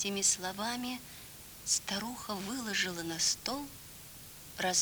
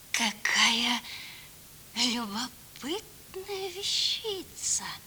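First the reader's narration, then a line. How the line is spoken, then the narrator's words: Sugary voice. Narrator (Russian): сладеньким голосом проговорила Агава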